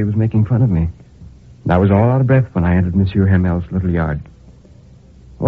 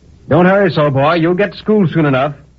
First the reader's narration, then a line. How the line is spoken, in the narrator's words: the blacksmith cried to me